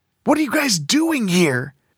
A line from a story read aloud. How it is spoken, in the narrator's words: Derek asked in an angry whisper